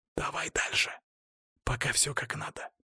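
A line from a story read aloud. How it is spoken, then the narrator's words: Whispered. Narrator (Russian): прошептал я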